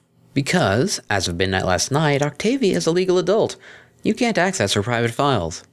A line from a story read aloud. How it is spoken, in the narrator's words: said, keeping his tone conversational